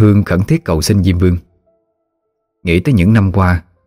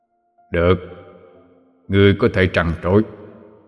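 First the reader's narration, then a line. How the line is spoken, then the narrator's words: Calm indifferent speech. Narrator (Vietnamese): Diêm Vương khẽ hé mí mắt mà nói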